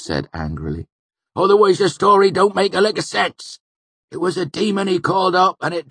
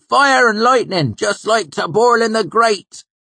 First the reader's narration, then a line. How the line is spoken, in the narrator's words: he called out